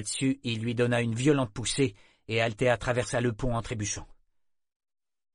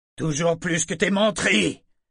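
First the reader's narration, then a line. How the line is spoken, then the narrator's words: Captain roaring. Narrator (French): rugit le capitaine Sichel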